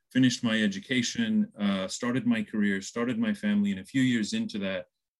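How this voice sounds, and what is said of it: American accent. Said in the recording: “You can hear from the accent. I'm from the U.S.”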